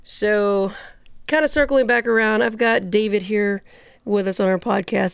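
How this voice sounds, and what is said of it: Rough voice, recovering from illness. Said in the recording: “Please excuse my voice. I'm getting over pneumonia. I don't sound like a teenage boy anymore.”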